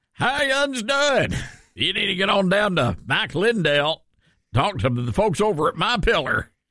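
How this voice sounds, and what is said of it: Strong Southern American accent. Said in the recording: “I'm saying my pillar ... your southern accent that you've acquired ... Is my accent that strong today?”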